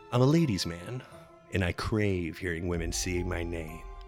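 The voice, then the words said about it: Super deep Candyman voice. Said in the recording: “my super deep voice”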